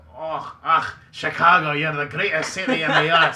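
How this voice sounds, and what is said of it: Put-on Scottish accent. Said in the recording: “Is that even an Irish accent? ... No, that's super Scottish. ... That's Scottish, for sure.”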